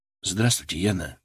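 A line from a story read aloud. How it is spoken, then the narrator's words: Quiet speech. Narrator (Russian): сказал негромко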